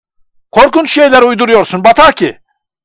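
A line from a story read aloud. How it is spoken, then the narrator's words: Crying out. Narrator (Turkish): diye haykırdı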